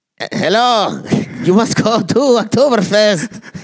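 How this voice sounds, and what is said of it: Put-on German accent. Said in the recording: “I want to hear your German accent ... You want to hear my German accent? ... There's like a blanket accent you can do that just covers everybody.”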